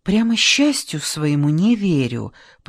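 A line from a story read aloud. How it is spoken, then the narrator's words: Whisper. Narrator (Russian): прошептала Лора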